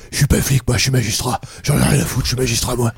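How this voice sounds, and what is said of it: Imitates another person's voice. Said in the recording (French): “imitation de Vincent Lindon qui est magistrat”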